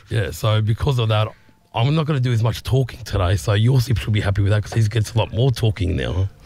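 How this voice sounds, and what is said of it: Hoarse, deep voice. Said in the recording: “not 100% as you can hear by my voice. It's still a little bit hoarse ... You sound like Barry White.”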